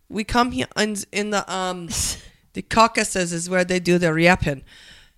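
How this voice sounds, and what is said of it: Weak attempt at Russian accent. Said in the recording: “I try to do a Russian accent. I can't do it.”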